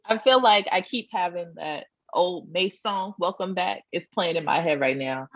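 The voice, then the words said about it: Slightly raspy voice. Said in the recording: “I'm a little raspy. ... I'm a little raspy. I need a little lemon and water.”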